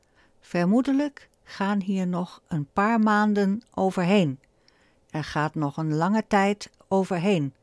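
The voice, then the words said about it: Light Limburg Dutch accent. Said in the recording (Dutch): “met een mooi licht Limburgs accent”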